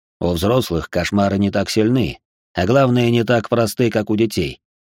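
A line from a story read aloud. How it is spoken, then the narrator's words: Amused snort. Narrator (Russian): хмыкнул Джеймс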